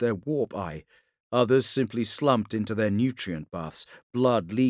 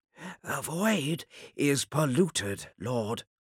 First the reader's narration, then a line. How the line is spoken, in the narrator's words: whispered